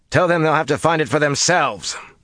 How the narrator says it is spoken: Matt shouted back absently over his shoulder

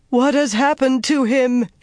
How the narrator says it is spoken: she wailed

